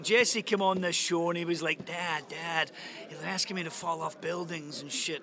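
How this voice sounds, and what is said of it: Imitates another person's voice. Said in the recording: “that was my Tony Kern impression. Not bad, huh? I do a really good Tony Kern.”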